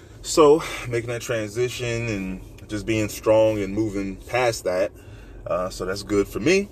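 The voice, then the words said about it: Voice sounds off, strained. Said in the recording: “My voice sounds a bit crazy, I know.”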